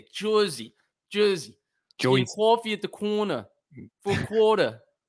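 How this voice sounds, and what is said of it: New Jersey accent. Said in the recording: “We got to work on that Jersey accent.”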